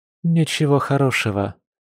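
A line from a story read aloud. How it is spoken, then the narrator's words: Sad reply. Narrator (Russian): печально ответила Маша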